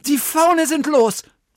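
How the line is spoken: Man shouting. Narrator (German): rief der Mann

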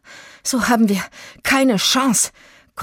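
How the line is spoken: Panting. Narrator (German): keuchte Itzig

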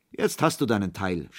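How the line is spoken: Laughing, several voices. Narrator (German): sprachen sie lachend

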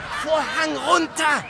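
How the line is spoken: Frantic scream near breakdown. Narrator (German): schrie der Regisseur kurz vor einem Nervenzusammenbruch

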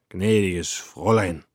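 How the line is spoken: Slurred speech. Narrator (German): lallte er

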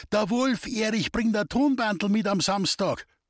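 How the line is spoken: Calling from afar. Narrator (German): der Bernie ... rief uns schon von Weitem zu

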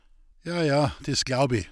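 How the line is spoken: Sighing. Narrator (German): seufzte

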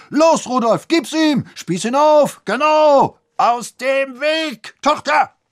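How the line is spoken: Knight bellowing. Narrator (German): brüllte der Ritter

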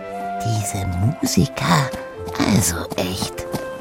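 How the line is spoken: Whisper in ear. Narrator (German): flüsterte sie ihm ins Ohr

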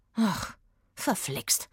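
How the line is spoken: Murmured. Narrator (German): murmelte Eggy

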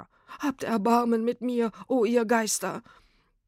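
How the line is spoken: Wailing lament. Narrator (German): jammerte

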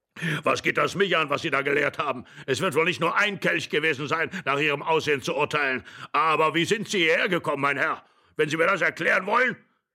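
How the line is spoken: Old man shouting, trembling, excited. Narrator (German): schrie der Alte zitternd vor Aufregung

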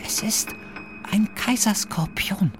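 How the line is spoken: Whispered. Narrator (German): flüsterte Maria

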